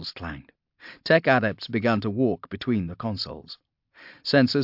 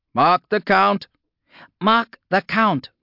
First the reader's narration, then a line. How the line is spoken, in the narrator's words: the shouts echoed down the bridge